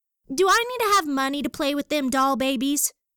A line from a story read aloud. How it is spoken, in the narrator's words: she squealed